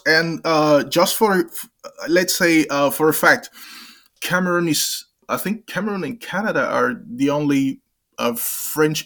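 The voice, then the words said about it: English-accented speech with French influence. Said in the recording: “some of your words are kind of accented with a kind of a British way of like a sort of a, an English accent. ... Uh, some of them remind me of Quebec, of, a, of an English speaker who has French as a basis.”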